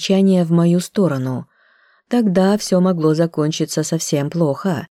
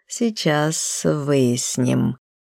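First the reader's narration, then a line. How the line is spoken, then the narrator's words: Slow reply. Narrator (Russian): отозвался он медленно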